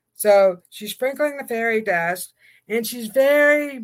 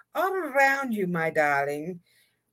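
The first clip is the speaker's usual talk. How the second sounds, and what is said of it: Fairy godmother character voice, accented. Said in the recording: “She has an accent.”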